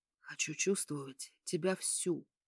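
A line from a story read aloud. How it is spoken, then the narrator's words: Whisper. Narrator (Russian): прошептал он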